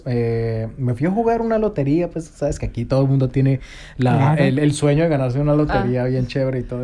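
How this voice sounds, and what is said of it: Colombian Spanish accent, rising intonation. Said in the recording (Spanish): “Me gusta el acento de los colombianos ... tenemos un acentico así ... Me encanta tu acento ... es como sube”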